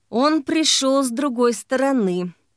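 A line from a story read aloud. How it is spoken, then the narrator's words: Through gritted teeth. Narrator (Russian): сквозь зубы сказал Погодин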